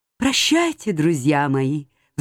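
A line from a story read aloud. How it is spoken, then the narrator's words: Sighing. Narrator (Russian): вздохнул он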